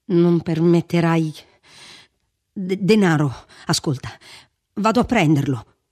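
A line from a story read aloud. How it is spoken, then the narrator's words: Shaky, upset stammering. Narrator (Italian): disse vacillando, tornandogli sulle labbra quel ridicolo balbettio di quando era sconvolto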